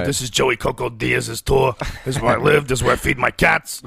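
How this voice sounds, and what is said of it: Imitates another person's voice. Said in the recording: “I would just do his voice for the whole cartoon”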